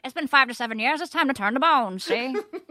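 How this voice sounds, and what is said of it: Old-timey Reefer Madness movie voice. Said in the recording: “in your Reefer Madness voice”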